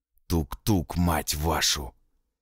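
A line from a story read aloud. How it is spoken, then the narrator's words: Hoarse rasp. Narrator (Russian): прохрипел Николай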